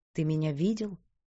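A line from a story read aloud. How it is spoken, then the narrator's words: Quiet question. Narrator (Russian): тихо спросила Дилан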